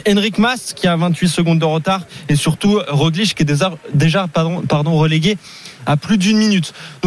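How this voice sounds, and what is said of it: Spanish accent speaking French. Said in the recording (French): “je suis fan de votre accent espagnol”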